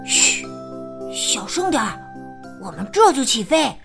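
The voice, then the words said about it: Mysterious hushed character voice. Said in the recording (Chinese): “小木马神秘地说”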